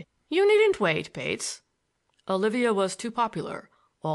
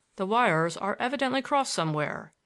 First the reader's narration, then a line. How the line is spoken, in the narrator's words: he said calmly